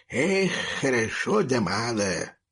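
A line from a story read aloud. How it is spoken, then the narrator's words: Dog grumbling, picking teeth. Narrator (Russian): проворчал рыжий пес, ковыряя в зубах щепкой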